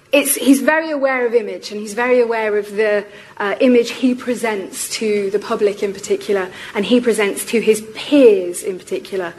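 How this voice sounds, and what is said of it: Strained, fading voice. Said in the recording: “I'm rapidly losing my voice, so you'll have to excuse me.”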